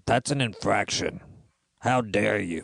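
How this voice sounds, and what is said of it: Troll-like character voice. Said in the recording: “Your voice just sounds very troll-like.”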